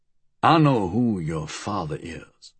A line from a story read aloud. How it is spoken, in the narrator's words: he said quietly